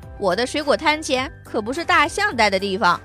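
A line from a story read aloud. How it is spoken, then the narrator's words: Shouting. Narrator (Chinese): 他叫喊着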